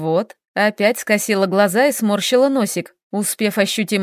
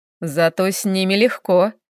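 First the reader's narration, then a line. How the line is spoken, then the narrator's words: Chuckling. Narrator (Russian): хохотнул Хел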